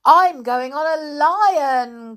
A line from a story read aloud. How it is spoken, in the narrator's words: cried a third one